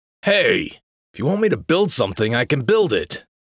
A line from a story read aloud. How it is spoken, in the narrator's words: he said, his voice irritable with a tinge of hurt